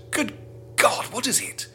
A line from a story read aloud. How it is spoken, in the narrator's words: He gasped